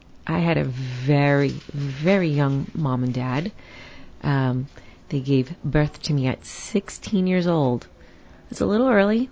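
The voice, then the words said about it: New York Queens accent. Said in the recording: “I'm from New York. I still say coffee and door and forget about it. Like, I really say that. ... So I still have the accent. Can't get rid of it. ... I come from Queens in New York.”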